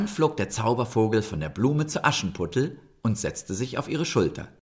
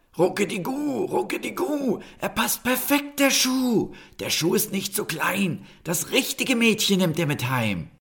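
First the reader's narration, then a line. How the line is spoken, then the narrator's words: Magic bird's loud croak. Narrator (German): der Zaubervogel und krächzte laut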